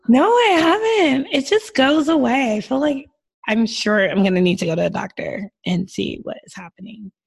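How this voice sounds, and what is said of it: Hoarse, deep-sounding voice. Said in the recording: “My voice is back to sounding like a man... I just keep getting hoarse.”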